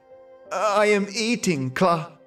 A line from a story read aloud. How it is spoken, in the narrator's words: In her fright, she quavered